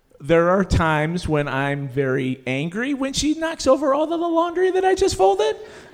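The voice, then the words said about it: High-pitched voice. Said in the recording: “I can tell by your high voice.”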